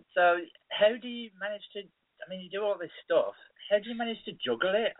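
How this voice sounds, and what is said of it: Birmingham Brummy accent. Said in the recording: “If you can hear my accent and then sort of multiply how ridiculous it is by about 10, that's what people from Birmingham sound like”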